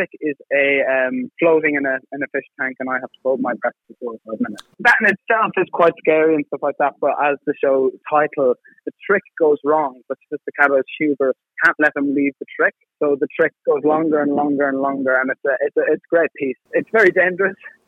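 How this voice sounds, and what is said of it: Irish accent. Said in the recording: “I can't place your accent. Where is your accent from? ... I'm from Sligo”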